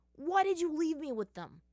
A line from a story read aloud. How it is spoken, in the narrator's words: Sokka immediately shouted